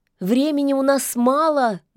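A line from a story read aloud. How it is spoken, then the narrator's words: Shouted while running. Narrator (Russian): на бегу крикнула Яга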